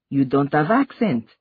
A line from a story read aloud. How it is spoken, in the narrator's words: Mariama exclaimed